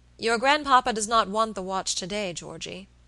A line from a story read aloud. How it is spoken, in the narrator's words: he said gravely